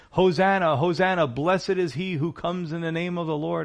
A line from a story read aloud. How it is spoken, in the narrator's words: they were yelling